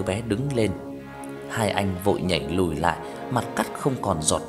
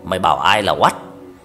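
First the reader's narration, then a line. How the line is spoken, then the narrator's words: Child's gruff raspy shout. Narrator (Vietnamese): Đứa bé quát lại bằng cái giọng ồm ồm re re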